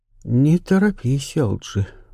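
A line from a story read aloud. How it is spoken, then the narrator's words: Calm. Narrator (Russian): спокойно сказала леди Августа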